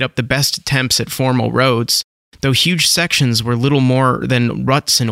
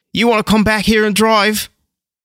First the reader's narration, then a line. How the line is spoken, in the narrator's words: Tim snapped back with a sharpness that surprised him